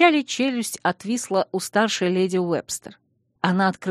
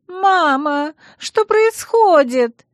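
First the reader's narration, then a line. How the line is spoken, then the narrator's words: Screaming. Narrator (Russian): завопила Ванесса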